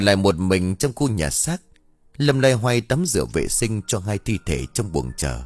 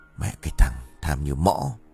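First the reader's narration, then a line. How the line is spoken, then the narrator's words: Grumbling. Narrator (Vietnamese): Kiên vẫn còn lầm bầm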